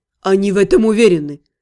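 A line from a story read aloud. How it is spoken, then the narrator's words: Skeptical snort. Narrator (Russian): хмыкнул Шайтанар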